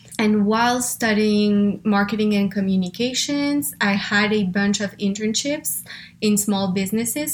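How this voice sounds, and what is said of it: French accent in English. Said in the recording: “I'm originally from France, as you can probably hear, or if you were wondering where the accent is from, that's where”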